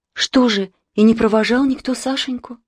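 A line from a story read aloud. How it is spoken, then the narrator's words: Sad insistent questioning. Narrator (Russian): грустно допытывалась Анна Петровна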